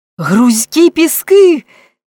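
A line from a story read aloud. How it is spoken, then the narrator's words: Frightened shout. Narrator (Ukrainian): крикнув переляканий Френк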